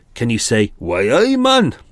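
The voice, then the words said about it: Weak put-on Geordie accent. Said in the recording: “my really feeble attempt at a Geordie accent.”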